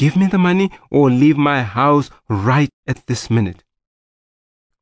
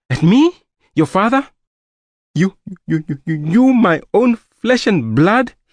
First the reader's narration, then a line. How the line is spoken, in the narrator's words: he stammered